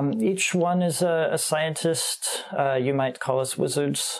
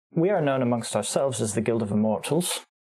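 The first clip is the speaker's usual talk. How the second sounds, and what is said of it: Slight British accent. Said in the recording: “I said that with a bit of a British accent... every time I say immortal, I sound different”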